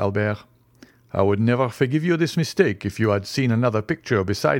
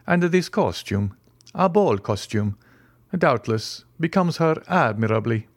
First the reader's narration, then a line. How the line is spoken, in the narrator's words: said the Count in a perfectly calm tone